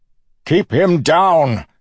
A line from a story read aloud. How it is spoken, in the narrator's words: Suit shouted